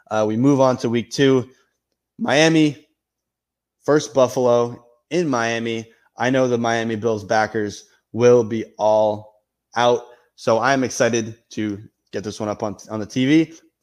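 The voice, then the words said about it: Sounds a little sick. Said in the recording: “I don't know if you guys can tell in my voice, I am a little sick. I did test positive for COVID”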